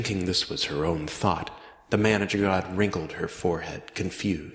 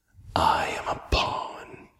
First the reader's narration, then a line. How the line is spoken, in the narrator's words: Reynolds whispered